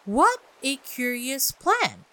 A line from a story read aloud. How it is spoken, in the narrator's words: exclaimed Alice